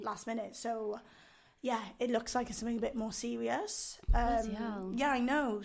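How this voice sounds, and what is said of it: Husky, hoarse voice. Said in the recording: “my voice is like this ... ooh, it's all husky ... Phoebe from Friends when she's ill ... My voice is a bit more annoying than this ... it's got a bit more depth to it usually”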